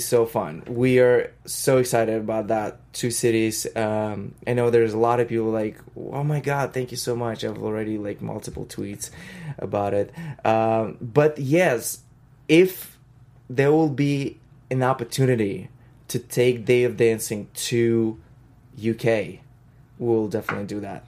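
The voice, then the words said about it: Russian accent. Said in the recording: “your Russian accent”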